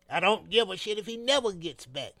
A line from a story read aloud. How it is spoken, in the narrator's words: declared